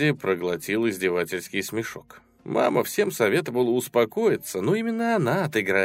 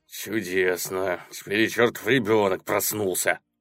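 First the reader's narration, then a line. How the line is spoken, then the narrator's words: Spoken angrily. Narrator (Russian): злобно проговорил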